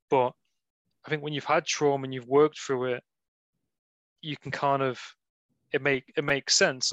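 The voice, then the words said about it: Liverpool-tinged English accent. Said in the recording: “Is this a Liverpoolian accent? ... It sounds more Liverpoolian than Nottingham.”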